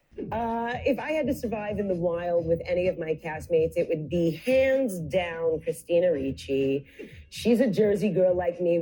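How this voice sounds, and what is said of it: New Jersey accent. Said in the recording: “Tawny Cypress Jersey accent ... Tawny's accent”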